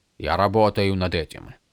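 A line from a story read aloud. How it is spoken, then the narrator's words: Grumbling. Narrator (Russian): пробурчал Долинар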